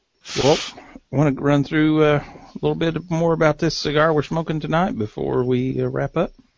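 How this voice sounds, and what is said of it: Hillbilly accent. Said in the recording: “my hillbilly accent. My is sounds like a has sometimes.”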